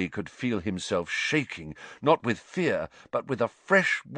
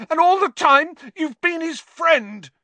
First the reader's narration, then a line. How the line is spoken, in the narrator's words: he shouted at Lupin, his voice wavering out of control